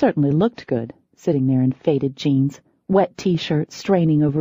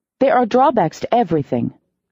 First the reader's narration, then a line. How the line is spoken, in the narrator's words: I snapped